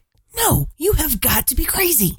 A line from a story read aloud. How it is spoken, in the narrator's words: she whispered back, her voice hoarse with emphasis